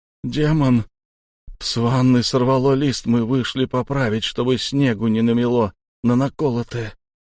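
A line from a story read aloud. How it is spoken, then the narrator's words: Lost, dazed voice. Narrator (Russian): Потерянным голосом заговорил Шон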